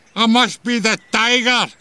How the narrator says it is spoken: Bleep screamed excitedly

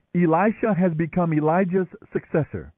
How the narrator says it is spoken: When the group of prophets from Jericho saw what happened, they exclaimed

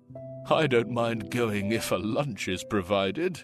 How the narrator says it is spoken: one of the men chuckled

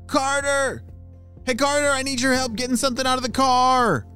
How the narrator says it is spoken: shouted one of his parents

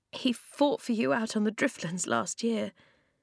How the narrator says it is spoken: Flint's voice was choked

